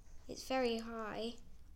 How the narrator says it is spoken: I mumbled

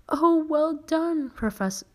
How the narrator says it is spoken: cried Professor Flitwick

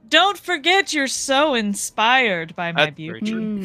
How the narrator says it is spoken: Zane yells out

